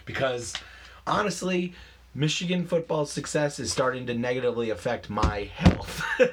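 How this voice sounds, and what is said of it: Hoarse voice. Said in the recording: “My voice is a little hoarse today... listen to my voice... I went hoarse”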